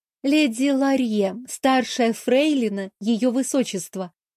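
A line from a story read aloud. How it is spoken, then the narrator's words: Joyful exhale. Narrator (Russian): радостно выдохнула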